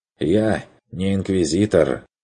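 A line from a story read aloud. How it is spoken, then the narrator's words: Snorting. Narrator (Russian): фыркнул Бруно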